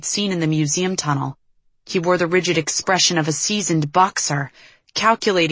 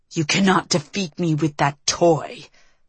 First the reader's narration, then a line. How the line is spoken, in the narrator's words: growled